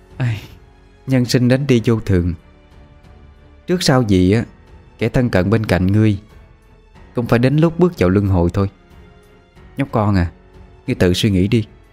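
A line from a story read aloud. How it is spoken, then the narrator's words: Woman sighing, sober. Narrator (Vietnamese): Cô gái thấy thằng nhóc đã quá tuyệt vọng, cũng thôi không đùa giỡn nữa, thở dài mà nói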